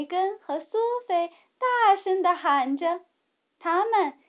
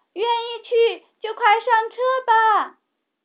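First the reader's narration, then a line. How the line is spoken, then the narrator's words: Loud shout. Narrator (Chinese): 茉莉也大声喊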